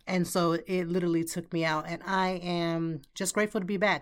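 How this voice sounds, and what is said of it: Slightly raspy voice. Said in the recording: “if my voice sounds still a little bit raspy”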